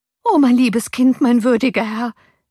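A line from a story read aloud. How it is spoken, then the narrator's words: Nurse crying out. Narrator (German): rief die Amme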